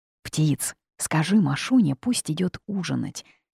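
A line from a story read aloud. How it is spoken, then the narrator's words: Barely audible whisper. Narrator (Russian): шепнула я едва слышно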